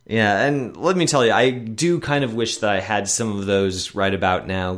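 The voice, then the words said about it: Deeper, congested voice from a cold. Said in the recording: “my voice sounds a little bit odd on the recording this week, but I'm getting over a bit of a chest cold, so you get to enjoy a much deeper version of my voice this week.”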